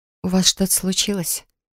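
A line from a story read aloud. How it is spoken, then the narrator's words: Quiet question. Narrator (Russian): Тихо поинтересовалась я у Фирса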